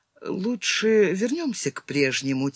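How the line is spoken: Quiet. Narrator (Russian): тихо сказала Родис

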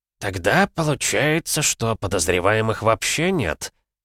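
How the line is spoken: Heavy sigh. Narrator (Russian): тяжело вздохнул

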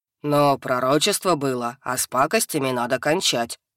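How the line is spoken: Low booming voice. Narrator (Russian): прогудел Хак

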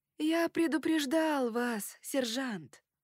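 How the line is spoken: Hoarse wheeze. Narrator (Russian): прохрипел Дракула

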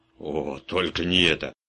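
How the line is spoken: Hoarse voice. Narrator (Russian): хрипло сказал

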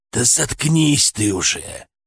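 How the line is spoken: Hoarse rasp. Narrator (Russian): прохрипел я

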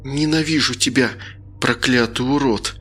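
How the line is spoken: Hissed through teeth. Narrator (Russian): Процедила Лена

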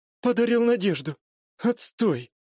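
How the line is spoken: Glum sigh. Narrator (Russian): Уныло вздохнула она

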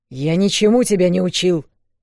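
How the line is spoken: Barking interruption. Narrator (Russian): рявкнул он, снова перебив

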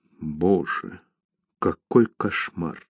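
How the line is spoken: Grief-stricken whisper. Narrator (Russian): сокрушенно прошептала Лис

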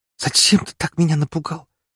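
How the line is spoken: Choked muffled hiss. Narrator (Russian): сдавленно прошипела она мне в шею

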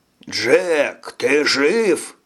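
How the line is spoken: Shouting. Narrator (Russian): закричал Хиш

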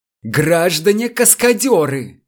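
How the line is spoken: Furious yelling. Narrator (Russian): в бешенстве завопил замдиректора

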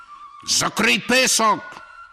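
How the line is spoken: Admiral shouting. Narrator (Ukrainian): крикнув адмірал Горті

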